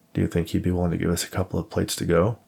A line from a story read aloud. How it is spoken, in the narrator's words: Jennifer laughed at the notion